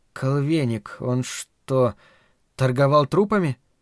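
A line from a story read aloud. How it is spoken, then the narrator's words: Quiet. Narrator (Russian): тихо проговорила Марина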